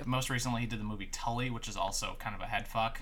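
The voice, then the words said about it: Weird-sounding voice, like a cold. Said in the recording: “my voice sounds really super weird. I'm recovering from a really bad cold”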